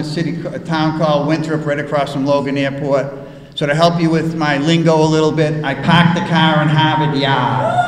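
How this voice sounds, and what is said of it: Boston accent. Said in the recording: “there's an accent, and if you can't tell already, I'm from Boston”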